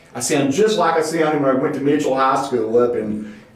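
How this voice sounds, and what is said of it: Southern Appalachian accent. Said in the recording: “you can hear my accent. I've not tried to change my Southern Appalachian accent”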